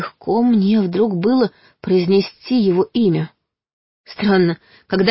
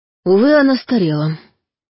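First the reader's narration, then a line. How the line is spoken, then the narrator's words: Sad. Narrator (Russian): грустно сказал он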